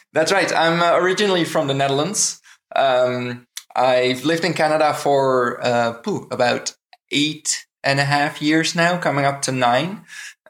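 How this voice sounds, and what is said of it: Slight Dutch accent. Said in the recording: “I'm noticing a slight accent.”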